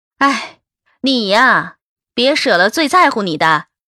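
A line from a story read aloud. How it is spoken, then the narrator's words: Sighing. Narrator (Chinese): 樊玲叹气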